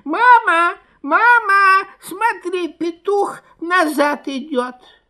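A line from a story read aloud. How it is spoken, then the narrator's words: Fox cubs squealing. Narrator (Russian): Лисята запищали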